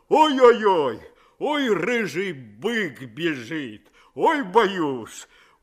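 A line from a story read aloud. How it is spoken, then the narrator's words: Mock-frightened shout. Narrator (Russian): Нарочно испугался и закричал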